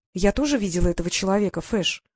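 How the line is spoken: Calm girl's voice. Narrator (Russian): спокойно произнесла девчонка

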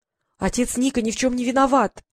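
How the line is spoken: Full-force shout. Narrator (Russian): изо всех сил выкрикнула Василиса

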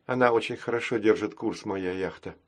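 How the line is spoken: Quiet. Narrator (Russian): тихо сказала Василиса

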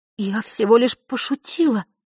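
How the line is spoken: Soothing whisper, girl. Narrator (Russian): прошептала девочка, стараясь, чтобы голос прозвучал успокаивающе

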